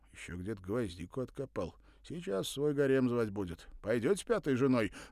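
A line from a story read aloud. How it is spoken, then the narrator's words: Laughing loudly. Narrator (Russian): захохотал он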